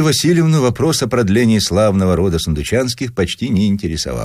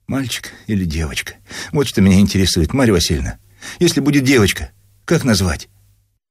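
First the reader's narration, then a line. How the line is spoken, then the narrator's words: Limp mumble. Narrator (Russian): расслабленным голосом бормотал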